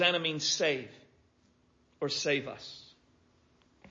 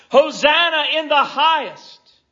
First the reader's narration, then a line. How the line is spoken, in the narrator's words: The people in the front would then shout